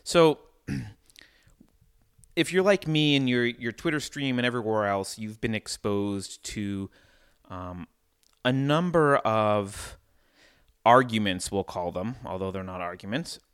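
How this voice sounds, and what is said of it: Odd voice, recovering from illness. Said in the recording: “my voice is a little bit odd. I'm coming off of an illness”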